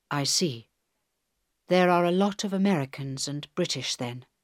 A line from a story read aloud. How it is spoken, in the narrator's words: said Helen quietly